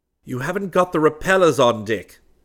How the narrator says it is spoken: Crane snapped

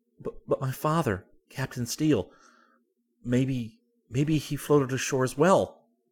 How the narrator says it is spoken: I gasped

